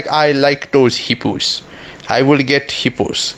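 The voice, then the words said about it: Put-on Russian accent. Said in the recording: “Why do I sound Russian?”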